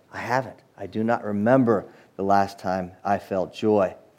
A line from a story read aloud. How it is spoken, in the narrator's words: began to softly cry and say